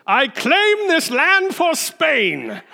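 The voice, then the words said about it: Don Quixote character voice. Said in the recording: “in my best Don Quixote voice”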